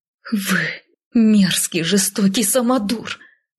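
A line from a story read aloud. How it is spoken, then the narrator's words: Hissing while struggling. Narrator (Russian): прошипела я, вырываясь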